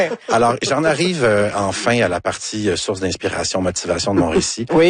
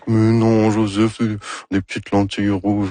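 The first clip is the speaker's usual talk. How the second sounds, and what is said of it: Imitates another person's voice. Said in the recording (French): “Ça, c'est mon imitation de Anne Dorval. ... C'est très réussi”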